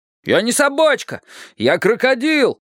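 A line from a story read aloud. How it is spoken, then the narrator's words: Shouting. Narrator (Russian): закричал Гоша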